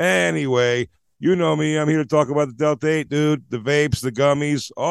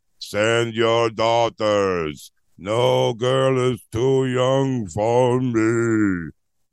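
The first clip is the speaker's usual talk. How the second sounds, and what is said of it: Imitates another person's voice. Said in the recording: “I was trying to do my Ralph impression. Pretty good, yes? ... That's Ralph, everybody. That's how Ralph sounds.”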